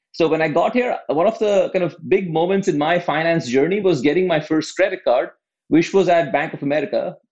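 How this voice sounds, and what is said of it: Non-American English accent. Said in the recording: “you can probably tell from my accent, I, I didn't grow up uh, in the US.”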